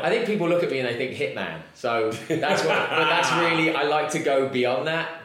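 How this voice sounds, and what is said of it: English accent. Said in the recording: “you can tell by his accent, he is from... England”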